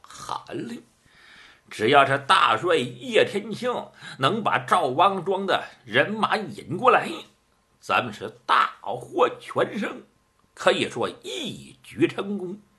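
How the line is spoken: Chuckling. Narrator (Chinese): 于半仙嘿嘿一笑

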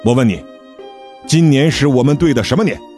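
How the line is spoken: Stern interrogation. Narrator (Chinese): 梁峰厉声质问道

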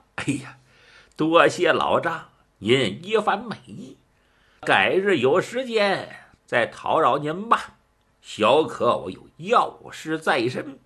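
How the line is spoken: Smiling. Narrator (Chinese): 一笑

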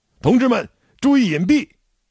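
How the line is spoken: Urgent shout. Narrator (Chinese): 这时，一批飞机乌鸦般尖叫着从头顶掠过，炸弹呼啸着倾泻下来，我高喊

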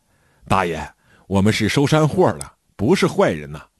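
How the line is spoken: Ingratiating smiling. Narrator (Chinese): 我忙陪着笑脸对老爷子说

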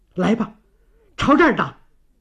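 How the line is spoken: Furious urgent. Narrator (Chinese): 幽兰一股急劲儿，怒目而视地说

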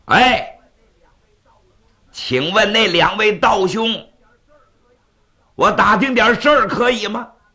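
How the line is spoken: Echoing call. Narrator (Chinese): 山谷应着回音

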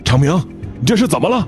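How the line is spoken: Workers asking urgently. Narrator (Chinese): 钻工们急忙问

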